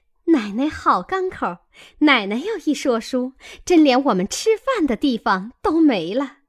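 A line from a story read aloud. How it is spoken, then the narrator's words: Laughing. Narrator (Chinese): 两个女仙儿也笑个不住，都说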